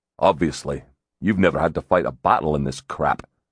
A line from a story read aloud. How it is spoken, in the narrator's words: he said irritably